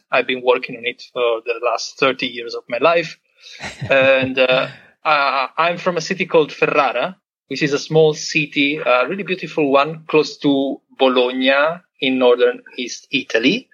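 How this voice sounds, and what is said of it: Italian accent in English. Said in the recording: “I'm Italian, as you may have guessed from my accent.”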